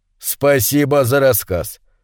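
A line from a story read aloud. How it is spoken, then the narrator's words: Stern flat repetition. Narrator (Russian): железным тоном повторил Гаев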